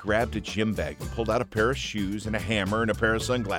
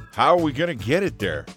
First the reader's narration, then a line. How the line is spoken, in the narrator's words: asked Sully